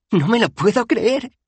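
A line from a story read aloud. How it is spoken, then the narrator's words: Exclamation from behind. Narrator (Spanish): exclamó una voz tras ellos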